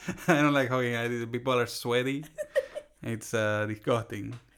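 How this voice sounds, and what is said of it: Put-on Latino accent. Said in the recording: “Talk about your aversion to hugs in your Latino accent.”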